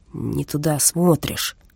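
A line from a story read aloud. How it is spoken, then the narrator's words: Seething, through gritted teeth. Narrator (Russian): весь кипя процедил Стах дежурному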